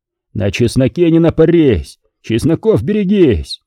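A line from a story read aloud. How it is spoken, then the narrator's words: Shouting at full voice. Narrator (Russian): Дмитрий кричал во все горло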